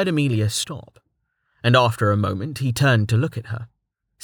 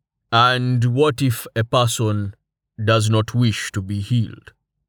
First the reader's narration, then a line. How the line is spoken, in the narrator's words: Torhart asked